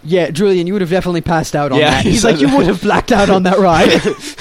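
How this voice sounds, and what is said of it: Bad fake British accent. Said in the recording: “his British-y accent ... that was a bad British-y accent”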